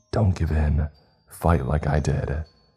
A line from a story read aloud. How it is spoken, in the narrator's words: my mom whispered in my ear